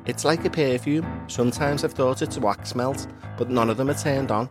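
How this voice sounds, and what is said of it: Generic Scouse accent. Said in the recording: “it's hard to do a Scouse accent when you're a Scouser. This is a very generic Scouse accent.”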